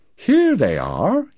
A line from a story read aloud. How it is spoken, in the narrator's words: he said cheerfully